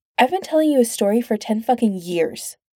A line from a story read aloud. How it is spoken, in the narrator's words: Pete snaps